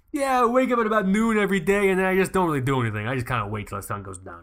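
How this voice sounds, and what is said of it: Put-on tired New York accent. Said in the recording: “in that voice. I don't even know what accent that is. ... I think it's like the generic like tired New Yorker that they have in The Simpsons ... If you up the pitch a little bit, you'll be like a 40s gangster movie like villain.”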